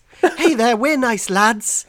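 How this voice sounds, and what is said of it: Weak put-on Irish accent. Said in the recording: “I'm not very good at an Irish accent, but ... that was supposed to be Irish.”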